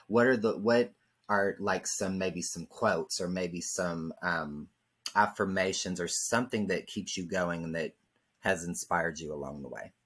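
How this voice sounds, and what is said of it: Slight southern twang. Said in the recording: “I love the little southern twang in your voice ... I hear your twang”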